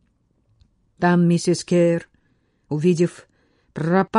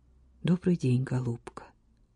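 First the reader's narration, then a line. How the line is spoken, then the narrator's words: Tender. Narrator (Russian): нежно сказал он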